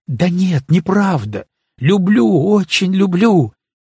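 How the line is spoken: Fervent exclamation. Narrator (Russian): горячо воскликнул ты

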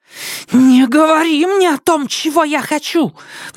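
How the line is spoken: Breathless shriek. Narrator (Russian): взвизгнула Сизин, тяжело дыша

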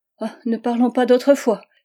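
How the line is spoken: Exclaimed sharply. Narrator (French): s'écria-t-elle vivement

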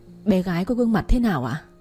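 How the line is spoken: Trembling question. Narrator (Vietnamese): Giọng tôi run rẩy hỏi

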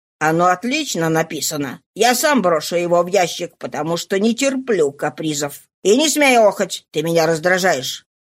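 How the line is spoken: Menacing. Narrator (Russian): угрожающим тоном произнес

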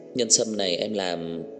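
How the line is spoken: Smiling, bright excitement. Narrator (Vietnamese): Trang Hạo Nhiên mỉm cười, ánh mắt sáng ngời nói

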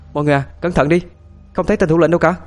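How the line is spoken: Loud warning shout. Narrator (Vietnamese): tôi hét lên thật to để cảnh báo cho mọi người

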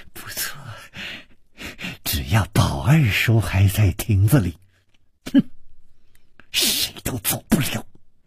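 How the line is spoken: Malicious smiling tone. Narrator (Chinese): 施少奶奶的嘴角也泛起了一丝恶意的微笑，说

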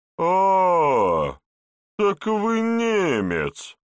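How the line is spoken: Drawn-out, surprised. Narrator (Russian): протянул возчик

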